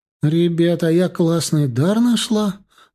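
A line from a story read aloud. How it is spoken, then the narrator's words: Joyful announcement. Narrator (Russian): радостно объявила Алиса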